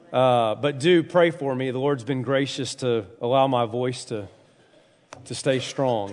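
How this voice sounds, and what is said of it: Congested, recovering voice. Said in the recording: “sinus issues this week ... my head has been in a bubble all week long. I've lost my voice. I'm just now getting it back.”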